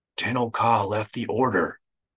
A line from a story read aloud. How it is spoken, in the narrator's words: he whispered